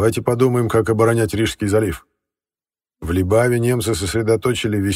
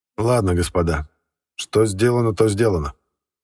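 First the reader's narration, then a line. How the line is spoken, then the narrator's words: Grim, curt. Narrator (Russian): мрачно бросил Эссен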